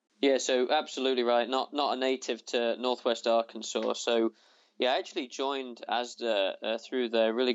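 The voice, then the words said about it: Non-American foreign accent. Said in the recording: “judging by your accent, it's pretty clear you're not from Arkansas”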